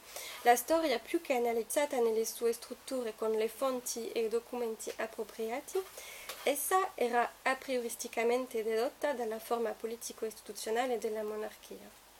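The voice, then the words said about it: Thick French accent. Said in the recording (French): “je suis désolée pour mon accent français, il a coupé au couteau”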